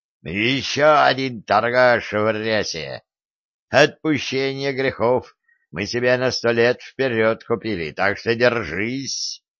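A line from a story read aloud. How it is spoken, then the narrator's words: Growling. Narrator (Russian): прорычал Семен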